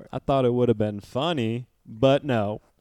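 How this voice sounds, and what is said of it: Mimicking the co-host's voice. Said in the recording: “I can do an impression of you.”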